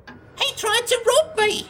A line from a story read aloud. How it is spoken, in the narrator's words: she cackled